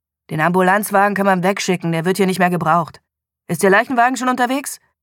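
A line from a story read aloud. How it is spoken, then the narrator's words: Curt, brusque tone. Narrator (German): David Morgans Tonfall blieb schroff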